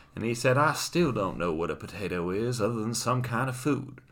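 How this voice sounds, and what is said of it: Put-on Southern gentleman accent. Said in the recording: “this could be a southern gentleman ... I'm going to continue as such because I'm rather enjoying doing the accent.”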